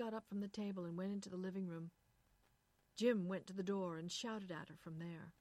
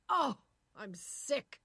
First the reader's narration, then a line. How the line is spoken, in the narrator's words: shouted